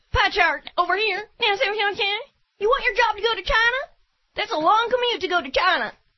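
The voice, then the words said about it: Imitates another person's voice. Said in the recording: “best Ross Perot impression”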